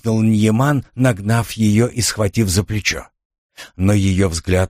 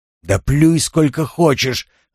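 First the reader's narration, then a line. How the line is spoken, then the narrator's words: Roar. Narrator (Russian): взревел он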